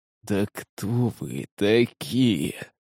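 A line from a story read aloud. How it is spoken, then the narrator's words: Hoarse wheeze, lying down. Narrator (Russian): прохрипел он, распластавшись на спине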